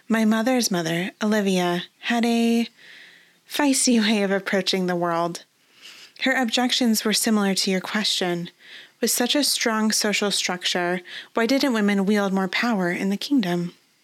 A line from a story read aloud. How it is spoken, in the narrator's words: Her tone turned wistful